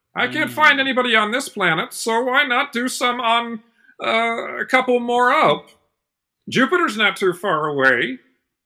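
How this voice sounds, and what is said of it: Cartoon Martian character voice. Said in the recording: “That's the best my Marvin impression has ever been. ... It used to sound horrible, and now it actually sounds passable.”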